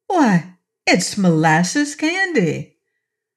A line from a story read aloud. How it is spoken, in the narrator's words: the little girl exclaimed